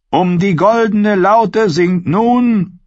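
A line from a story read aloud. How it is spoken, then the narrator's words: Called out. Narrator (German): rief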